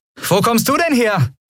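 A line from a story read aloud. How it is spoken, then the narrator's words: Called out. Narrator (German): rief Andriel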